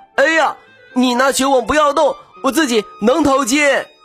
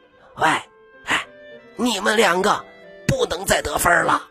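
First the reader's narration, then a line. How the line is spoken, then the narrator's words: Quiet, whispered. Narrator (Chinese): 粗眉毛小声对他们说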